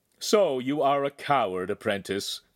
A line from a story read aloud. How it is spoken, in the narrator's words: Feltrino called, laughing